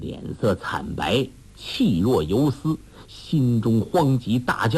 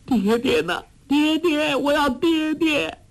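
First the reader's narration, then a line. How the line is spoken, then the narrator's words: Wailing, crying out. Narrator (Chinese): 黄蓉悠悠醒来，大哭叫道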